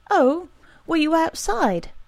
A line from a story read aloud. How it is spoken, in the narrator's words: She asked brightly